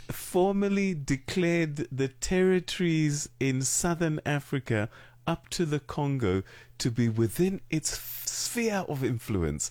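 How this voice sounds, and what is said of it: British accent. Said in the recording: “Says he with that British accent.”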